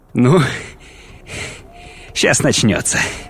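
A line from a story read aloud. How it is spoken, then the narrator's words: Nervous chuckle. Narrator (Russian): нервно хохотнул Ноя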